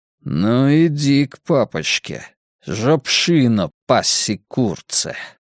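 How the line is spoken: Through gritted teeth. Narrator (Russian): процедил Нит и Сефни

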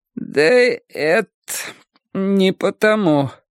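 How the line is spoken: Strained, forced out. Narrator (Russian): выдавила Холли

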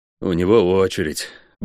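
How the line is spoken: Grumble. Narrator (Russian): буркнул я

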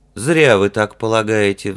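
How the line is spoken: Sighing. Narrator (Russian): вздохнул Гартвик

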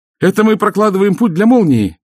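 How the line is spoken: Joyful explanation. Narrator (Russian): радостно объяснил Джереми

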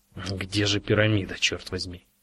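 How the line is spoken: Irritated question. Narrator (Russian): раздраженно осведомился он

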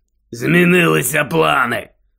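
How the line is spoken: Growled. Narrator (Ukrainian): прогарчав Дикозор

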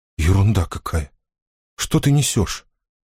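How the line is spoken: Whispered reply. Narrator (Russian): прошептала Мэгги в ответ

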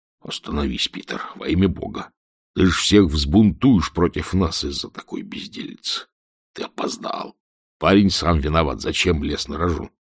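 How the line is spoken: Whispering in ear. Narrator (Russian): верный Волверстон шептал ему в ухо

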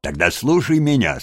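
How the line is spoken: Plain. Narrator (Russian): сказал Крысси

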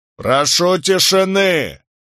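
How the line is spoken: Loud barked command. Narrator (Russian): рявкнул судья Катчет

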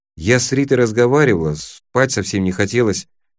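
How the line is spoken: Quiet. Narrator (Russian): тихо произнесла она

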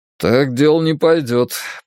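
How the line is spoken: Grumbling. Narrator (Russian): проворчал Дракенен

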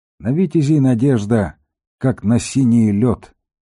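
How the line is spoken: Sighing. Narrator (Russian): вздохнул Вен

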